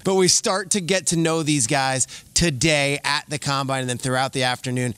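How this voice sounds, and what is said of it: Slightly hoarse voice. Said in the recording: “my voice a little hoarse, last night was lit here in Indy.”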